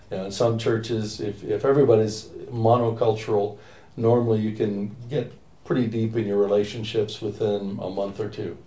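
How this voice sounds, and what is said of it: American accent. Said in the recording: “that's not a London accent ... about 4,000 miles west ... So from the States.”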